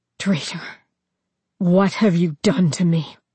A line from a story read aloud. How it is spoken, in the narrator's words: rasp out the words